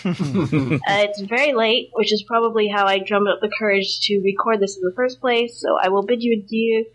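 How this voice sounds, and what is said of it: American accent. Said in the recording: “She doesn't sound Welsh. ... So that was an American accent, was it?”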